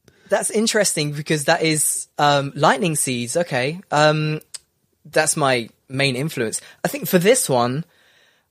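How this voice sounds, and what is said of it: Northern English accent. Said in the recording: “I'm from the middle, or you might say the north of England. So I don't say bath or grass or castle.”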